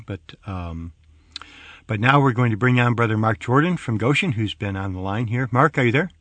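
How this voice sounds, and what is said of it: Voice with a slight cold. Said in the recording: “I have a little bit of a cold. I hope that has not been too much of a distraction.”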